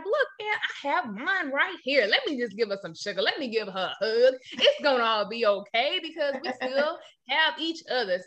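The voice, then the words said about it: Imitating Ralph Angel's accent. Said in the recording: “Is that the Ralph Angel accent? ... I was trying to do a little something.”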